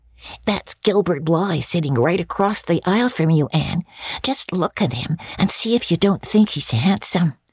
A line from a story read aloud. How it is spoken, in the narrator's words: Diana whispered to Anne